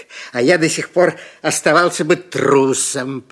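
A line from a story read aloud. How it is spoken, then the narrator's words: Lion's growl. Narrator (Russian): прорычал лев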